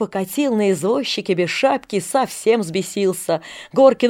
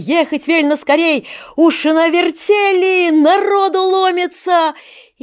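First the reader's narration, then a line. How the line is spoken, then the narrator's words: Shouted. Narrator (Russian): высуня язык, Андрюшка, крикнул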